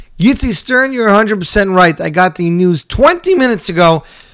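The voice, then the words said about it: Voice still recovering, strained. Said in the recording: “My voice is coming back slowly, slowly, slowly, slowly.”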